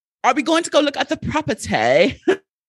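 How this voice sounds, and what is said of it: Imitated British Valley girl accent. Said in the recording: “Chelsea, the British Valley girl ... The British Valley girl accent was an accent that I had never heard before in my life until this show”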